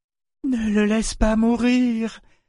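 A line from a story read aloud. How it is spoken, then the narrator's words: Pleading woman. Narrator (French): supplia-t-elle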